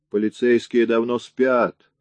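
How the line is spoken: Wry snort. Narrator (Russian): хмыкнул Рэнди

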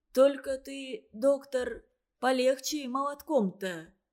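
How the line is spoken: Sudden, groaning. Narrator (Russian): неожиданно подал голос Лычка, успевая и стонать

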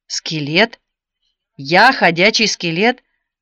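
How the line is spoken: Snorting laughter, large man. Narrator (Russian): Он фыркнул, и все его огромное тело затряслось от смеха

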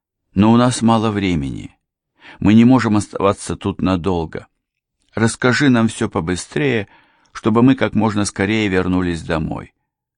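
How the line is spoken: Soft, gentle. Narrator (Russian): мягко проговорила мисс Тревик

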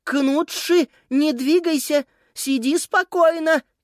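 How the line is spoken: Shouting. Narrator (Russian): крикнула она кошке

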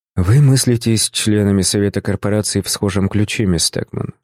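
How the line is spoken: Plain. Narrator (Russian): ответил я

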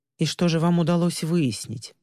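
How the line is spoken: Plain. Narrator (Russian): спросила она

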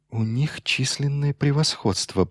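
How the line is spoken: Mutter. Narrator (Russian): пробормотал Торн

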